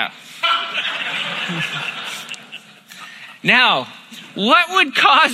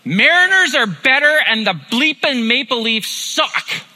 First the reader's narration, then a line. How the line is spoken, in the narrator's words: this dude on a bike he yelled